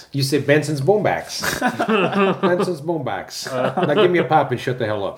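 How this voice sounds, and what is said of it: Put-on Cleveland accent. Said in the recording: “How would you say that in a Cleveland accent?”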